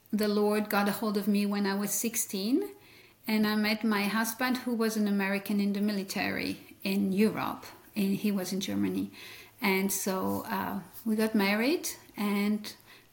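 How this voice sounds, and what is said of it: Belgian French accent, mixed. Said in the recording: “I came from the French speaking part of Belgium, and that's what you hear is French in my accent, but it's kind of a mixture of many things because I've been here for so long”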